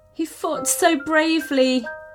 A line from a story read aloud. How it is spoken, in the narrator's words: sobbed Mia